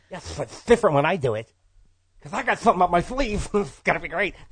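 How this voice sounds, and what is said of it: Daffy Duck impression, Paul Lynde flavor. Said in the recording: “add a little Paul Lynde into that Daffy Duck impression”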